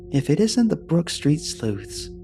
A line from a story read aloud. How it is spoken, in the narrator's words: she said warmly